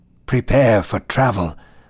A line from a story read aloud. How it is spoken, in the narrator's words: Elisha said in a hushed tone